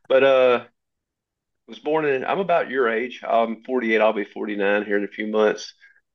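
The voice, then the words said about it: Southern Tennessee accent. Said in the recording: “born and raised in Southwest Tennessee. I'm assuming you can hear that in my voice ... other people say they can hear it”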